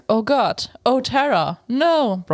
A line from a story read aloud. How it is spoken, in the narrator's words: Bronzy yelled